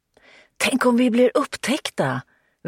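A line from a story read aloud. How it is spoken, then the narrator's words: Girl whispering. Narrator (Swedish): viskade flickan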